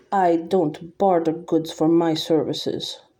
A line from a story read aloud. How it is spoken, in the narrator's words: she said, her voice clipped with an accent I'd never heard before